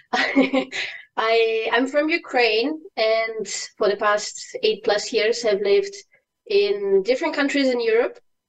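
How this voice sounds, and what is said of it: Hard-to-place Eastern European accent. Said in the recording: “from my accent you can't really say where I'm from ... really strange accent people can't really identify me by”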